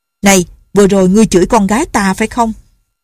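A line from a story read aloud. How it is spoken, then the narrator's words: Shouting. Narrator (Vietnamese): người chạy trước quát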